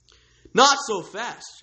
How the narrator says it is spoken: shouted, his decorum lost

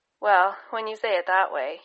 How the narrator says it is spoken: chuckled

